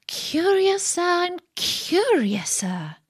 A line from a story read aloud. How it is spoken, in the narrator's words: cried Alice